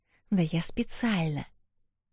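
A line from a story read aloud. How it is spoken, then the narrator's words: Whisper. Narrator (Russian): прошептала Эл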